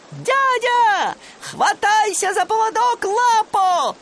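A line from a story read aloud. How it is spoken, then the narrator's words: Shout. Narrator (Russian): крикнул он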